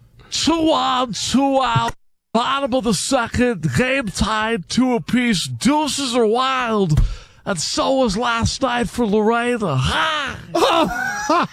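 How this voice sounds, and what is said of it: Harry Caray impression. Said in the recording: “Do the Harry Carey real quick. ... Just do the impersonation. No, the impersonation is the best.”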